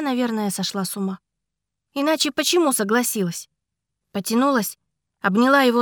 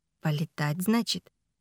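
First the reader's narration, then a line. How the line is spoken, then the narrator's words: Quiet question. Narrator (Russian): тихо переспросил Ричард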